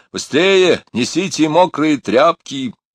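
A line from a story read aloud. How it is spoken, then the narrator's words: Shout. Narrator (Russian): крикнул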